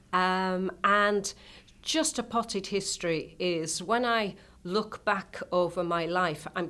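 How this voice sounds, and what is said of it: British accent. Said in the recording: “this is the British accent that you're listening to”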